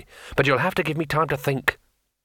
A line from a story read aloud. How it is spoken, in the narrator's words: said Rincewind irritably